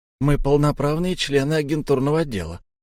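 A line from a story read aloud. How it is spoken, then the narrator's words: Whispered. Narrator (Russian): прошептал Антон Павлович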